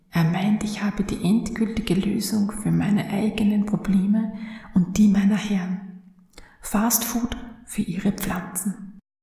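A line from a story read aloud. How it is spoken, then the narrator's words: Urgent murmur. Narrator (German): murmelte eindringlich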